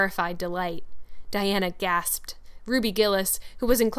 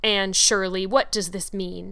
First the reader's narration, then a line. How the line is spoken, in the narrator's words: he said angrily